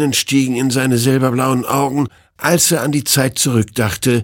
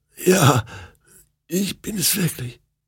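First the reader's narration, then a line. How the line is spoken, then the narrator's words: Hoarse croaking. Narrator (German): krächzte sie heiser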